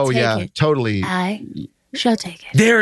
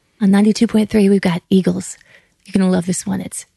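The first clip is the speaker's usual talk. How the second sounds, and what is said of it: Female radio DJ voice. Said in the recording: “sound like you have a female radio voice ... Like, you could go NPR ... Adult contemporary ... set up a love song”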